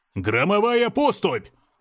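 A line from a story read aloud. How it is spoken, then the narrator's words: Shouted. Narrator (Russian): закричал Искатель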